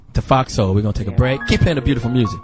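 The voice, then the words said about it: Deliberately deepened announcer voice. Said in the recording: “See how my voice went deep?”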